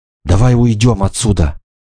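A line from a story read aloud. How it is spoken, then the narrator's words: Exclaimed. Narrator (Russian): воскликнула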